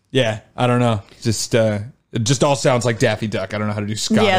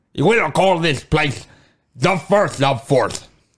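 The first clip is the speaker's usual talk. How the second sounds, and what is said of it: Scottish accent with speech impediment. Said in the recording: “Can you do a speech impediment in a Scottish accent? ... That was not bad.”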